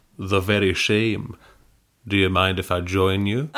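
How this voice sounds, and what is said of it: Sean Connery impression. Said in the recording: “giving him a Sean Connery voice.”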